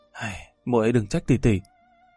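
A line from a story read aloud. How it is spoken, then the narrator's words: Sighing. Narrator (Vietnamese): Linh Linh thở dài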